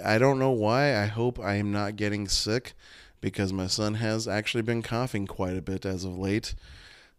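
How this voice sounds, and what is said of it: Worn, squeaky, congested voice. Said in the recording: “my voice is a little shot today ... I have a little chest congestion, and I feel like my voice is like squeaky a little bit. I feel like it's going again.”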